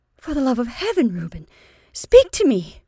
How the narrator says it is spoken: cried Dorcas, and the strange sound of her own voice affrighted her

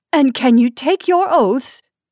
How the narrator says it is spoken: cried Mrs

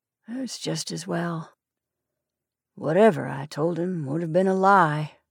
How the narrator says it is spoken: he said softly

